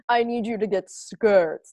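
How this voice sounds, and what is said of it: Imitates another person's voice. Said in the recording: “That was a terrible Meryl Streep impression. ... I'm sorry that was such a bad impression. ... I kind of thought that was good.”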